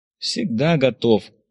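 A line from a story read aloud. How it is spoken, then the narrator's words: Sighed. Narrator (Russian): вздохнул Виктор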